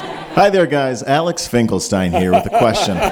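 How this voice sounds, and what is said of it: Announcer-style radio voice. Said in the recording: “this is the radio voice”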